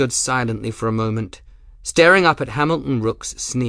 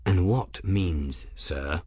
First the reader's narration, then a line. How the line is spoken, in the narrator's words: asked quietly